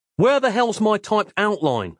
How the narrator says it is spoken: I snapped, shocked rigid at her blatant insolence

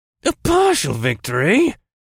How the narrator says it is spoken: he snarled

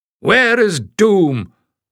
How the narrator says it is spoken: the tall stranger roared

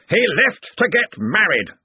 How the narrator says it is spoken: snapped Ridcully

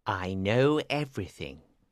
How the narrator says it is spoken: he told the king quietly

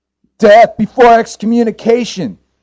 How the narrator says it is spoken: cried Father Lenny

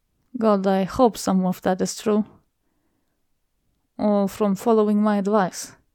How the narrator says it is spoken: with a sigh, voice fading to a grumble

